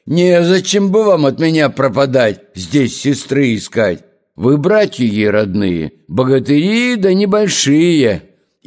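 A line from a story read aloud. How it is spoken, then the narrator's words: Serpent whistling and bellowing. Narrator (Russian): змей свистнул, и гаркнул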